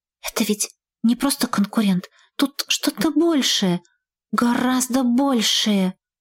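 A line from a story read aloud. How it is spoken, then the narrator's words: Whisper. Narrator (Russian): уточнила шепотом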